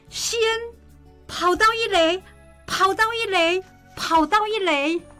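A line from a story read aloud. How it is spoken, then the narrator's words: Crowd of parents shouting. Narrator (Chinese): 每个站在看台上的人，不管是哪一队的家长，都开始喊着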